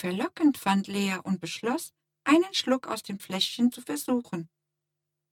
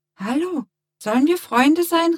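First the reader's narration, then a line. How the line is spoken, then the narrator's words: Calling out. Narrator (German): rief Lea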